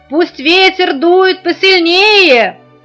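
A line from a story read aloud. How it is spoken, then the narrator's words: Shouting. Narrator (Russian): кричал Маляну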